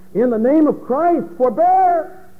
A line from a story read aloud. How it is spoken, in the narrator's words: cried